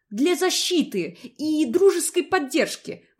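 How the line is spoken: Indignant. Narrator (Russian): возмущенно сообщила

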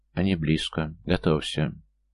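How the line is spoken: Cautious whisper. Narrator (Russian): Кан осторожно тронул плечо Тии, прошептав

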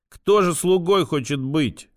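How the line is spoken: Snorting. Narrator (Russian): фыркнул Сашка

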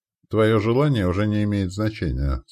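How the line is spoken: Calm reply. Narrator (Russian): спокойно ответил Верес

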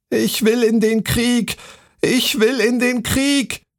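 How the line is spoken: Tin soldier shouting loudly. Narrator (German): rief der Zinnsoldat so laut er konnte

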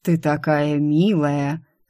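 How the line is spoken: Surprisingly sarcastic. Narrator (Russian): на удивление язвительно произнес он

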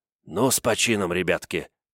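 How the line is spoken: Woodcutter whispering. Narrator (Russian): прошептал дровосек

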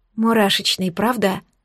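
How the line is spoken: Quiet whisper, girl. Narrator (Russian): Тихо прошептала замершая рядом со мной девушка

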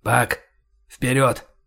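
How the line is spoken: Whispered command. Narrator (Russian): скомандовал шепотом Кэп

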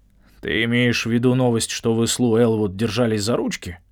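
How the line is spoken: Grumbling. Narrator (Russian): пробурчал Брэндон

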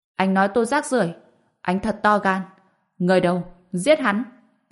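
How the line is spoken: Very angry. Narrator (Vietnamese): Cậu hổ nghe vậy vô cùng tức giận

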